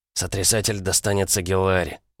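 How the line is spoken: Grumbling. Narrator (Russian): буркнул приятель

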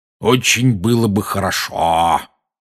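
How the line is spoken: Malicious tone. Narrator (Russian): произнес дядя зловредным тоном

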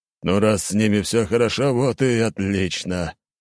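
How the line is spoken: Relieved exhale. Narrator (Russian): выдохнул император

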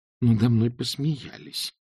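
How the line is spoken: Muttering. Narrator (Russian): пробормотала Эск

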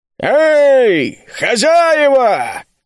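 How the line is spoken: Warrior's booming shout. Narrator (Russian): крикнул зычным голосом воин

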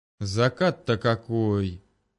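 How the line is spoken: Admiring drawl. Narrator (Russian): восхищенно протянул дядя Женя

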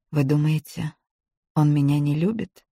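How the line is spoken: Quiet hoarse serious question. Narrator (Russian): спросила она тихо и хрипло, вдруг отбросив легкомысленный тон

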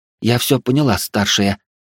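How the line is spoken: Frightened voice. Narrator (Russian): произнесла испуганным голосом Рансид

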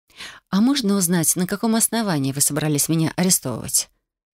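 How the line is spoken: Calm question. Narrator (Russian): Спокойно поинтересовалась я

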